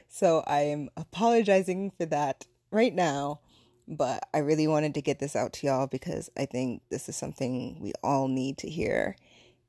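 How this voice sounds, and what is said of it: Strained voice cracking in and out. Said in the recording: “I'm so sorry for the sound of my voice ... I can just hear my voice cracking in and out ... gargle some mouthwash or something”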